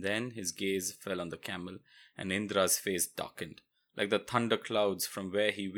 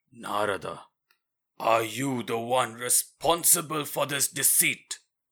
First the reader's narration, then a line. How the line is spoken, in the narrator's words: that terrifying voice roaring through the hall